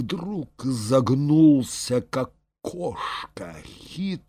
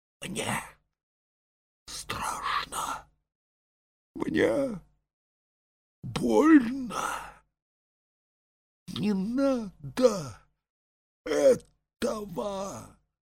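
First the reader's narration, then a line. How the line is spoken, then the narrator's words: Broken muffled whisper. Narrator (Russian): как бы против воли зашептал голосом, прерывающимся и глухим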